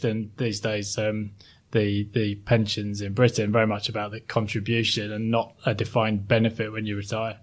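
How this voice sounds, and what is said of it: Well-spoken British accent. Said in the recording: “Obviously, still have an accent ... my relatively well-spoken accent ... I grew up in South Yorkshire, a place called Sheffield”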